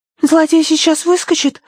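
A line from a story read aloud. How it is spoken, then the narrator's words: Frightened question. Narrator (Russian): испуганно спросила Агнес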